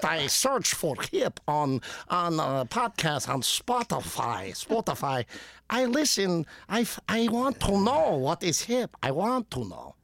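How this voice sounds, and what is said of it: Put-on Polish / Eastern European accent. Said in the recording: “I just nailed the Polish accent, didn't it? ... I'm gonna say yeah. ... It's kind of my just kind of overall Eastern European”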